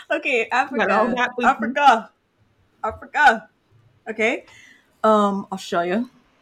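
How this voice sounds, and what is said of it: Odd put-on accent. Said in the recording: “What accent was that?”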